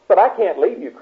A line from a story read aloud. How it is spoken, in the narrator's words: cried little brother